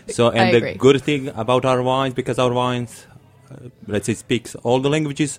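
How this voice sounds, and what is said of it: Strong Croatian accent. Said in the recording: “my English isn't perfect and I have accent. It's like strong one, like Croatian one.”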